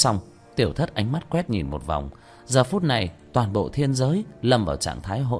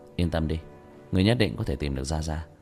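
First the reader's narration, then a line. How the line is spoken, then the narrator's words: Sighing. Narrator (Vietnamese): Tiểu Thất thở dài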